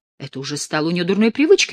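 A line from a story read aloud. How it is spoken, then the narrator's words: Agitated exclamation. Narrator (Russian): воскликнула взволнованная Алиция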